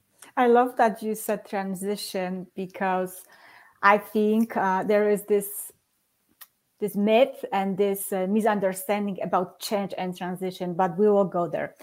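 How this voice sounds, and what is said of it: Polish accent. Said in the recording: “where this girl accent is from ... I'm originally from Poland”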